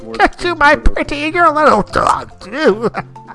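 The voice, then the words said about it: Old man voice, not scary. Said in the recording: “old man voice. That's not a scary voice.”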